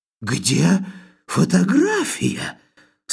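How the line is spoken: Frightening voice. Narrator (Russian): страшным голосом спросил он, таким страшным

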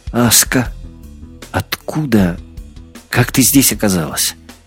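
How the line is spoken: Quiet voice. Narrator (Russian): Голос прозвучал тихо

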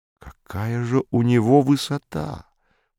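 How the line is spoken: Muttered. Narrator (Russian): пробормотал я

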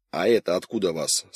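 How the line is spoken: Sharp question. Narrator (Russian): спросил он резко

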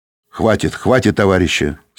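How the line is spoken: Stern speech. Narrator (Russian): строго сказал он

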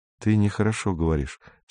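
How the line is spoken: Quiet speech. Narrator (Russian): сказал Кондратьев тихо

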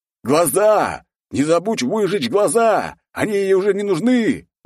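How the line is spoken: Crowd screaming. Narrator (Russian): вопили люди

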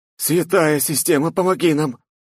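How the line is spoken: Pleading chorus. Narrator (Russian): взмолились рядом стоящие эльфы

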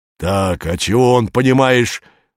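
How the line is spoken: Aggressive guilty wheeze. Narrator (Russian): Агрессивно виновато сипел босок

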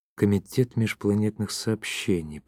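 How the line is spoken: Mumbling. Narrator (Russian): пробормотал он

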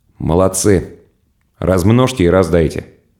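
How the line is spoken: Quiet voice. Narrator (Russian): Корней сказал негромко

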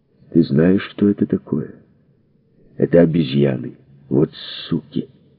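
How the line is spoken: Unexpectedly calm announcement. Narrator (Russian): Изя ... неожиданно спокойным голосом объявил

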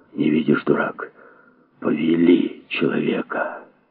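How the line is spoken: Ominous whisper. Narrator (Russian): кто-то зловещим шепотом проговорил

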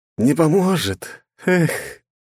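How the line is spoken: Heavy sigh. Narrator (Russian): тяжело вздохнула бездна

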